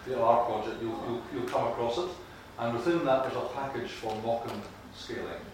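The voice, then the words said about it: Scottish accent. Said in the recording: “my Scottish accent is difficult when you say that”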